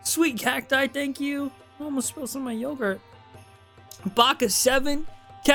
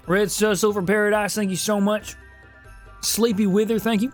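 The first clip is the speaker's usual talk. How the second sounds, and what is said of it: Put-on Southern accent. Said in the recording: “in a southern accent”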